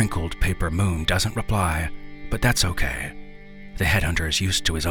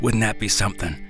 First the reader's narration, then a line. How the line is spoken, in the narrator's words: he rasps with laughter